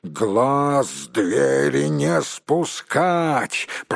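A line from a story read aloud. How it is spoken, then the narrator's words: Growled order. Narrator (Russian): прорычал начальник караула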